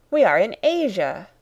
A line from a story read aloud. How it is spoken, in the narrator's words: I cried